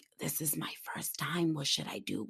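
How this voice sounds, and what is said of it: Low nervous whisper. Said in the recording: “that's exactly how I'm asking him. And you know, I'm loud. So for me to be that low whispering, I was so nervous”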